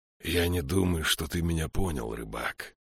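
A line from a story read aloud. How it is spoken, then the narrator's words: Monk hissing. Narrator (Russian): прошипел монах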